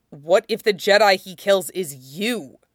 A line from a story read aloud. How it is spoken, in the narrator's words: Colt asks harshly